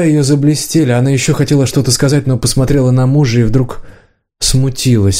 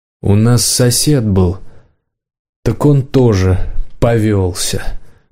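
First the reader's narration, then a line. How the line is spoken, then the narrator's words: Grumble. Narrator (Russian): проворчал хозяин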